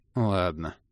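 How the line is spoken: Gloomy agreement. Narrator (Russian): мрачно согласился Кандирт

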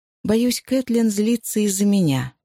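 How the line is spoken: Plain. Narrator (Russian): сказала Джози

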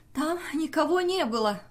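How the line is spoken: Exclaiming. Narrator (Russian): воскликнула Джуди

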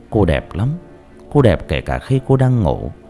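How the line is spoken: Soft smile. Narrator (Vietnamese): khẽ mỉm cười

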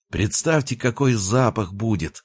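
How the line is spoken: Joyful. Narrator (Russian): радостно произнес Коля

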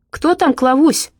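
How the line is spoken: Distant male shout. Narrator (Russian): крикнул откуда-то из комнаты мужской голос

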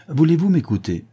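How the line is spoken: Exclaimed. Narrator (French): s'écria Thémine

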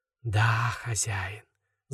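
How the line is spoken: Rustling sepulchral whisper. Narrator (Russian): за могильным шепотом прошелестел Шамаш

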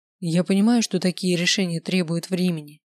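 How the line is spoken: Plain. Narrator (Russian): сказал он

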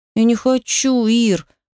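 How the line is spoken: Whining child's moan. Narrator (Russian): застонал ребенок

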